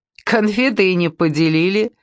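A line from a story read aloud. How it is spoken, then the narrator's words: Joyless laugh. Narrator (Russian): невесело рассмеялась Ольга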